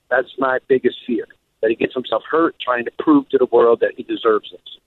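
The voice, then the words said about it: South Jersey accent. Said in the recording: “definitely ... is a South Jersey accent. There's no doubt.”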